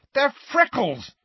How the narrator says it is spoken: said Ron furiously

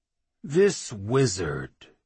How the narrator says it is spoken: the Claymaster began slowly

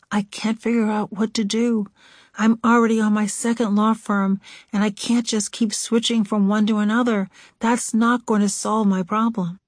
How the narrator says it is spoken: Whispering out of earshot of any colleagues said

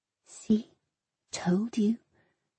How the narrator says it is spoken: Mummy whispered

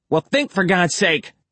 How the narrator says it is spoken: she snapped

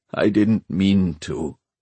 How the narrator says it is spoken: he said miserably

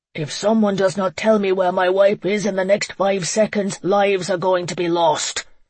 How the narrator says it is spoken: Connor roared

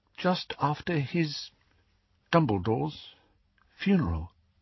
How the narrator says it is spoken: said Hermione in an even smaller voice

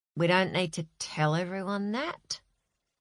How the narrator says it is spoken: muttered Ben into his chest

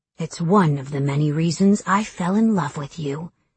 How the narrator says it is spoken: he whispered

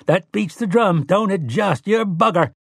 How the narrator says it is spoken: Tian laughed and ... cried

